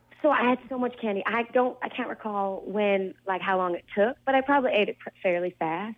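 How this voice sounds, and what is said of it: Speaks with a noticeable accent. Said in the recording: “With your accent, sometimes I bet people misunderstand the word fillings for feelings.”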